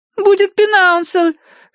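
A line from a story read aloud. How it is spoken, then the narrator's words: Shrill squeal. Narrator (Russian): взвизгнула Агнес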